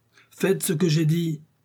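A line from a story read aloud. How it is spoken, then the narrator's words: Commissioner's exclamation. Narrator (French): s'écria le commissaire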